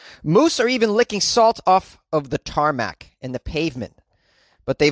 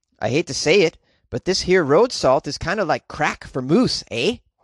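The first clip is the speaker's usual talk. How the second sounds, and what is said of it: Put-on Canadian accent. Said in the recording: “I got a quote from Joe, who's a Canadian ... It's a pretty good impression of Joe, the Canadian.”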